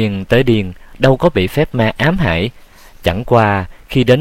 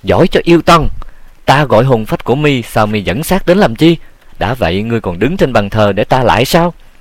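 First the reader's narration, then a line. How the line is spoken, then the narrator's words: Angry loud shout. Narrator (Vietnamese): Diệu Hưng ... giận dữ thét to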